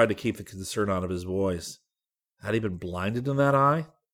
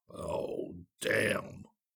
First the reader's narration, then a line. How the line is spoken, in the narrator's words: Zircon said softly